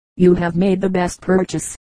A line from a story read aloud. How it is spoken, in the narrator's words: said the philosopher